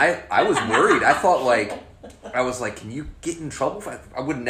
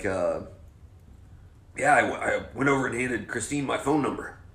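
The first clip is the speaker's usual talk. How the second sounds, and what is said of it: Imitates another person's voice. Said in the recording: “that's my Jeff impression”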